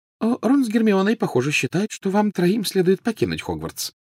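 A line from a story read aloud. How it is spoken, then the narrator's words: Light, casual tone. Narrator (Russian): начала она легким и непринужденным тоном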